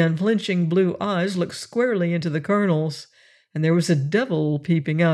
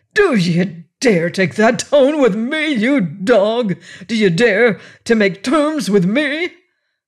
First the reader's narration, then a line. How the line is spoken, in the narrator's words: roared